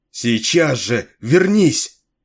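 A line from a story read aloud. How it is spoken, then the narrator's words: Shouted. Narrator (Russian): закричала она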